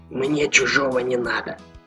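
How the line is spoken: Grumbled. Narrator (Russian): буркнул Джеймс Лопес

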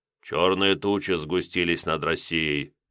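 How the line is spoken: Grim opening. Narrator (Russian): мрачно начал я

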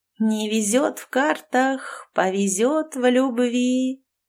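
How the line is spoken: Sing-song teasing. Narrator (Russian): каждый раз нараспев ехидничал Пашка, когда сестра проигрывала

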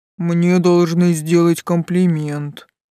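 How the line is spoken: Wary low boom. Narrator (Russian): опасливо прогудел тот

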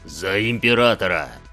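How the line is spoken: Barked. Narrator (Russian): рявкнул Фафнир

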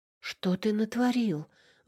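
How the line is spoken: Breathless gasp. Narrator (Russian): выдохнула

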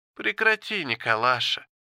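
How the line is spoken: Sighing. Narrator (Russian): вздохнула Мария

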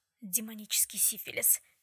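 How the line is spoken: Whispered. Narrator (Russian): прошептал Уилл

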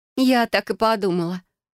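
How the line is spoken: Female snort. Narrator (Russian): фыркнула

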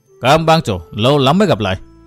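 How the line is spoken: Cold voice. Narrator (Vietnamese): Hắn lên tiếng giọng lạnh lùng

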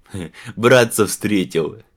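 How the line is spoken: Tipsy chuckle. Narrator (Russian): хохотнул подвыпивший нотариус

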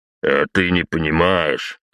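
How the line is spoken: Smirking snort. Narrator (Russian): хмыкнул я

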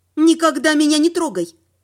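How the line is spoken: Sharp. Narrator (Russian): резко сказала я

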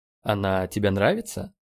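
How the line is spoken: Calm question. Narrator (Russian): спокойно спросил Нейт

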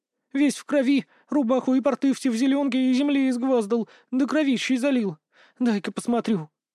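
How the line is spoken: Sobbing. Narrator (Russian): проговорила, всхлипывая

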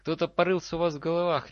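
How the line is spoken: Shout. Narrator (Russian): крикнул Гарри

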